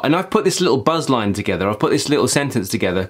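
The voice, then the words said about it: East London accent, R like W. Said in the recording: “Being from London and from East London, close to Essex border, I have an accent which naturally wants me to pronounce W's quite a lot ... in my natural accent, I kind of do it”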